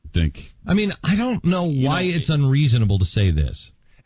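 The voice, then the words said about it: Exasperated, dim-sounding tone. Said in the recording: “I love the tone of voice, too. It's like, I'm just a caveman. I don't understand. ... You're so exasperated.”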